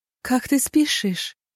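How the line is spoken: Barely audible. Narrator (Russian): еле слышно промолвила она

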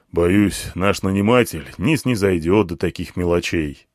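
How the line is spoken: Commander's sigh. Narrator (Russian): вздохнул командир

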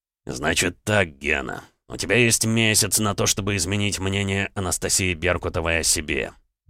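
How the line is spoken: Words through gritted teeth. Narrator (Russian): процедил Александр

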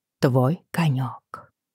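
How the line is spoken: Barely audible mutter. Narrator (Russian): пробормотала еле слышно

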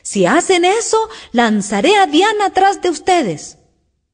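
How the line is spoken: Shouting as loud as possible. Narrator (Spanish): Alicia, al oírlo, le gritó tan fuerte como pudo

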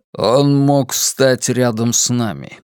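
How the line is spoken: Icy, cutting off. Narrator (Russian): ледяным голосом оборвал его Роланд

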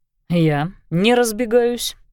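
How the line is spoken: Scoffing snort. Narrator (Russian): хмыкнул

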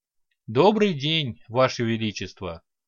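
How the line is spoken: Calm reply. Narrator (Russian): спокойно ответил Лек

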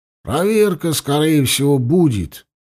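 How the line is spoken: Resigned sigh. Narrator (Russian): Сааков обреченно вздохнул

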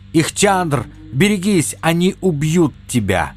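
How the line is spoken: Shout. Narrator (Russian): профессор крикнул

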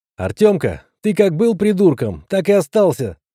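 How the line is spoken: Forced cheerful shout. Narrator (Russian): выкрикнул я, стараясь придать голосу побольше веселья

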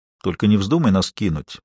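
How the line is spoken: Calm, steady. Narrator (Russian): спокойно произнес

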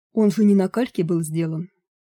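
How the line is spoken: Sigh. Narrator (Russian): вздохнул карлик

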